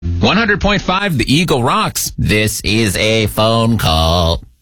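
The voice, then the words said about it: Robot-like voice. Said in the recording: “not an actual robot. I was doing a voice.”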